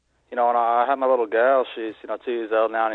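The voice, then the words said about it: Irish accent, possibly fake-sounding. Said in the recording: “is this a fake accent? ... Is this an Irish accent? Doesn't it sound Irish? ... It sounds like Sons of Anarchy Irish, which probably means it sounds fake.”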